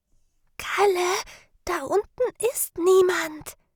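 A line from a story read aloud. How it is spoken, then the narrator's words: Whisper. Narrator (German): flüsterte Sarah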